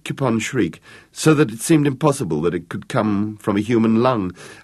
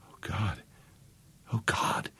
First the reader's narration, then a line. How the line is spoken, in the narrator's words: whispered Vicky